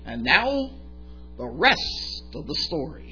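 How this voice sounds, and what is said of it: Imitates another person's voice. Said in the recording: “I'm going to do my best, and it's not good, but my best impression of Paul Harvey”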